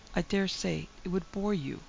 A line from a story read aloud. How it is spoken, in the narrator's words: she said meekly